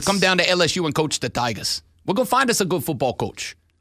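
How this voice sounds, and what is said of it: Old Cajun Louisiana accent. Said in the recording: “Love the accent. I just can't. ... That's old Cajun. ... accent”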